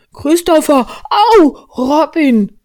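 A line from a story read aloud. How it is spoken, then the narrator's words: Cloud calling out. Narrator (German): rief die Wolke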